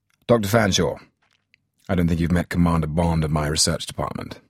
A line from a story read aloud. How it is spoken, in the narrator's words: M said, stiffly